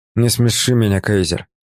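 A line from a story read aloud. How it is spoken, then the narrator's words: Grumble. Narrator (Russian): буркнул Николя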